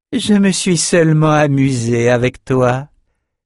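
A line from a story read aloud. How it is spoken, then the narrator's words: Sneering. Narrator (French): ricana-t-elle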